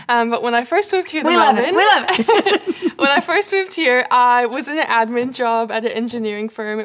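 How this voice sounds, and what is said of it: Canadian accent. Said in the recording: “you might notice my accent. I'm from Canada.”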